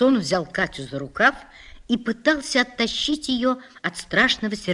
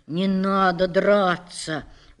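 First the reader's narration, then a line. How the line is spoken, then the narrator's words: Gentle. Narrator (Russian): уже мягко сказал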